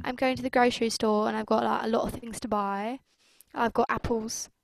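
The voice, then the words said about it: Put-on British accent. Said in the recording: “I like to think I have a pretty okay British accent ... I feel like that's not that bad ... It's actually ... Pretty good.”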